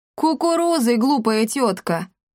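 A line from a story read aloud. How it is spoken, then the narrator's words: Laughing loudly. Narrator (Russian): расхохотался Акаций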